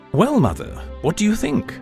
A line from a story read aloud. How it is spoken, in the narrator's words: he asked